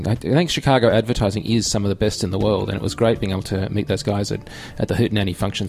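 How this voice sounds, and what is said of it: Australian accent. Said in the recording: “they enjoyed your Australian charm that you pulled out. We love the accent. We love the accent here.”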